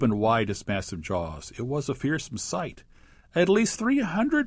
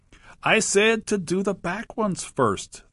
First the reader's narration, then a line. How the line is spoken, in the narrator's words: the crocodile called out